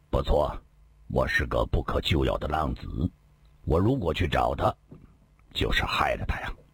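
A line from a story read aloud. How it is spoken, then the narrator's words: Low voice. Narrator (Chinese): 李寻欢低声地说道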